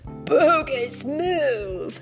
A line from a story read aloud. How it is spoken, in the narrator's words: Michelangelo yelled